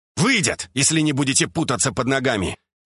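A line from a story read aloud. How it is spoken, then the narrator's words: Barked shout. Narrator (Russian): гаркнул я им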